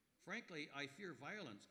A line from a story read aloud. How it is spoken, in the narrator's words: Cohen said